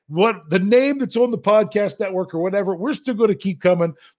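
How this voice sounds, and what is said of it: Imitates another person's voice. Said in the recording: “I'm going to tell you what Rich would have said. Let's see if I can do my impersonation.”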